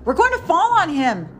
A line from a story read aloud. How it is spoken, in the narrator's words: the youngest cried